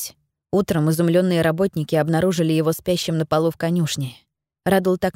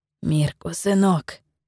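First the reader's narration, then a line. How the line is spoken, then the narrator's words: Whisper. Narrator (Russian): шептал он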